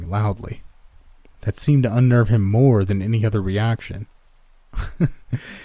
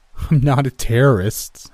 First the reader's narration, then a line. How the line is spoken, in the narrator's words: I laughed